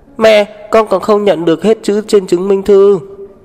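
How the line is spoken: Child shouting. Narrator (Vietnamese): tiểu đồ tử hét về phía cô chủ nhà

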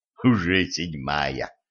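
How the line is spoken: Smirking grunt. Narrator (Russian): хмыкнул

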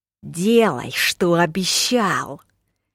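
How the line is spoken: Through gritted teeth. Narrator (Russian): сквозь зубы процедил Киллан

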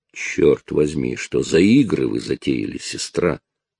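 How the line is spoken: Growl. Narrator (Russian): прорычал Чарли

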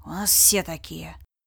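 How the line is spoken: Mumbled. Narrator (Russian): пробормотал Ред

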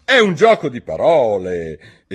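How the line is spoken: King's resentful exclamation. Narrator (Italian): esclamò il re in tono risentito

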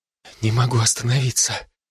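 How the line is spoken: Breathless girl's whisper. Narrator (Russian): прошептала девушка переведя дыхание

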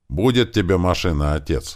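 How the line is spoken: Said loudly. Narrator (Russian): громко сказал я

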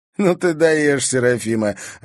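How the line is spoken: Laughing young man. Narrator (Russian): рассмеялся один из парней

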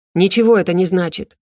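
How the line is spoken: Sharp, cutting interruption. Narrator (Russian): резко оборвал ее Геральт

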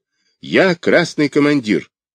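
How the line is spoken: Sharp reply. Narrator (Russian): Я резко ответил

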